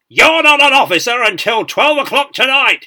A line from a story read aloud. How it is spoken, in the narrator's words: he bellowed